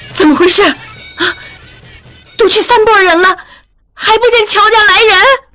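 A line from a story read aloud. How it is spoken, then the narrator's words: Shrill, sharp, cutting. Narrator (Chinese): 他的声音又尖又锋利，像大风刮过的刀口一般，那一瞬间连他自己都害怕起来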